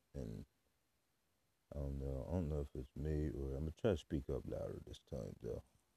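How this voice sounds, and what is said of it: Deep, quiet voice. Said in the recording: “your voice, we can barely hear you ... My voice is deep.”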